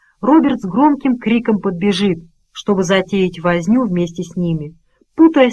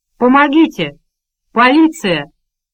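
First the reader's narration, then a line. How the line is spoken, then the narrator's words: Shouting. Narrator (Russian): закричал Роберт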